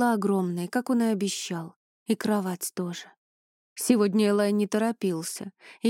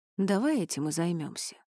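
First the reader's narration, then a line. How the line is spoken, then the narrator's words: Purring in ear. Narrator (Russian): промурлыкал он мне на ухо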